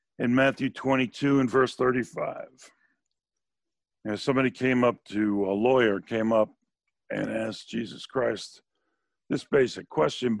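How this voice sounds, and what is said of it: Froggy, hoarse voice. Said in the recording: “I don't know why I'm losing my voice, but it's a little froggy this morning.”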